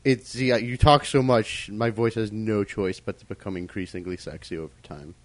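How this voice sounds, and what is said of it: Much lower voice from sore throat. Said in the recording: “my voice is much lower than before ... my voice has dropped an octave ... I got a sore throat, and then I got sick”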